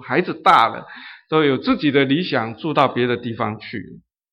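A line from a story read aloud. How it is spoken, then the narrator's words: Sighing woman. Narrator (Chinese): 那个女企业家就叹了一口气说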